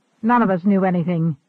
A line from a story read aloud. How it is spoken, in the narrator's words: he snapped